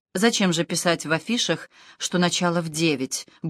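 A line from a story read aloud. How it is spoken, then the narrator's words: Annoyed grumble. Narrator (Russian): буркнул Гектор, досадливо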